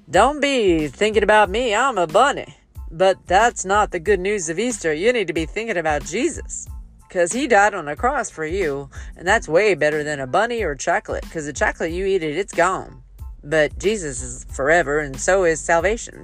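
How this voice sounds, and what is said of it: Cartoon bunny character voice. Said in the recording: “my best impression of the VeggieTales bunny ... I love to do voices and accents.”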